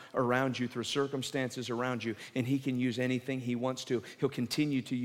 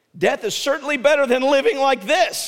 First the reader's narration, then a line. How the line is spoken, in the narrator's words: he exclaimed